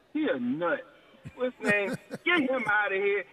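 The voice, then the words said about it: Exaggerated Philadelphia accent. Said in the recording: “I'm going to call Doc what he is in my Philly voice.”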